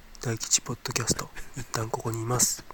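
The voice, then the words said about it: Sudden mumbled whisper. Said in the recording (Japanese): “急になんかボソボソっと ささやかれるのが”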